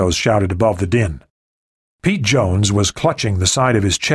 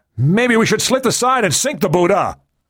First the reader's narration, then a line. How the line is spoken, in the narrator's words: Meadows shouted